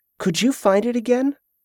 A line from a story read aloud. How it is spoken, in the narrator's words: The cook grinned eagerly as he resumed chewing